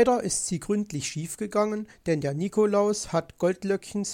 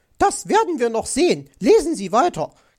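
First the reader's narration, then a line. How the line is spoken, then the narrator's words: Angry shriek. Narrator (German): kreischte aufgebracht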